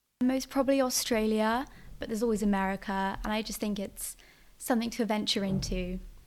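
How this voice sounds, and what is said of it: Slight North American accent. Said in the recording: “a bit of a North American accent”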